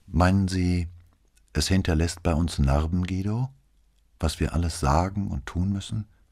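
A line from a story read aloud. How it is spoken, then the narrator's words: Changed male voice, asking. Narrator (German): fragte er mit völlig anderer Stimme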